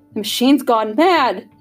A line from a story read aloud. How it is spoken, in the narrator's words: wailed